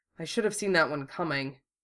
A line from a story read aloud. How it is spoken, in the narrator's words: Wufei muttered